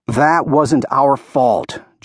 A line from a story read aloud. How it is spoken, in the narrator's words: Jonah argued hotly